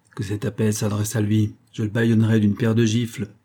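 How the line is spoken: Chief growling. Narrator (French): gronda le chef

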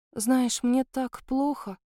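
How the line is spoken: Sighing. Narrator (Russian): вздохнула

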